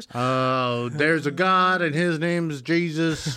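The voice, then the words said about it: Put-on Southern twang. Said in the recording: “Why is that a southern twang?”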